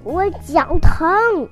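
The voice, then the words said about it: Shouting loudly. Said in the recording (Chinese): “只好大喊 ... 你能不能小声点儿”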